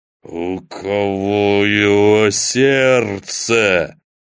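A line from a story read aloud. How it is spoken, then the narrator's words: Growled. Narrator (Russian): прорычал Анубис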